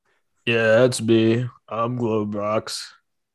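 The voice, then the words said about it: Congested-sounding character voice. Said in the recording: “you sound a little congested”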